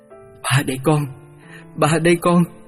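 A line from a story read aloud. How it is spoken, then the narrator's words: Emotional, stammering, trembling voice. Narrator (Vietnamese): Với vẻ xúc động ấy, giọng lập bập run run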